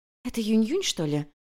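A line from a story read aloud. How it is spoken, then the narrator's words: Maids whispering together. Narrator (Russian): зашептались служанки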